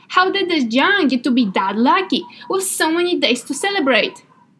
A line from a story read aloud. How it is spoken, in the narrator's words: Thinking about piles of almond cookies 43 days per year, the boy exclaimed